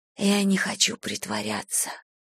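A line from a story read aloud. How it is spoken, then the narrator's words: Whisper. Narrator (Russian): прошептала я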